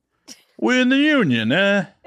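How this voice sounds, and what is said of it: Mock New York mobster accent. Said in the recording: “That was more New York than... I don't have a good Chicago accent... sketchy wannabe mobster accent”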